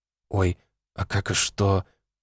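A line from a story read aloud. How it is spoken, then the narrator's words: Confused question. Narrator (Russian): растерянно спросила она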